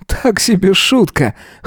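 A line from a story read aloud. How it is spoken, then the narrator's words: Wry snort. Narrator (Russian): хмыкнул Эзра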